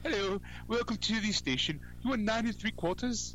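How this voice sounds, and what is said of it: Put-on British accent. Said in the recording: “in a British accent ... They could talk like this”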